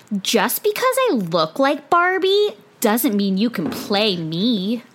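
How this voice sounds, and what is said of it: Elle Woods-like impression of a woman. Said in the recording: “you do her accent ... Literally her voice this episode, like she is Elle Woods.”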